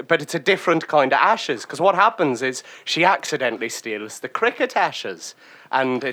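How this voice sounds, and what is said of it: Put-on accent drifting into Scottish. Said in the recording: “You are veering to Edinburgh right now with that accent ... it's hard to do a consistently a Scottish accent”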